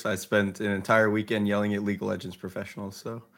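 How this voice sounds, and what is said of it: Slightly hoarse voice. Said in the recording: “my voice is a little hoarse... I will also probably sound very hoarse on”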